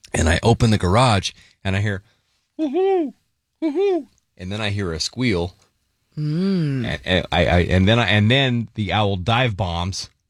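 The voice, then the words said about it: Imitates an owl hooting. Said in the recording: “good owl impression”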